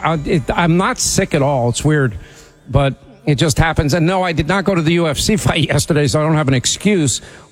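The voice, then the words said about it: Slightly sore, hoarse voice. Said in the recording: “My voice is a little sore.”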